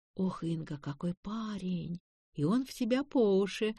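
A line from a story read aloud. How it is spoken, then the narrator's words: Whispered. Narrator (Russian): шептала Таня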